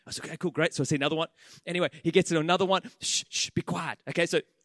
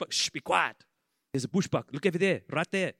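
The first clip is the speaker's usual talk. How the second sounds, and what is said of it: Put-on accent imitating a tour guide. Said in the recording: “I'm working on the accent. Is it all right?”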